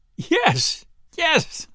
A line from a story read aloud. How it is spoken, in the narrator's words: she stammered out, almost choking with laughter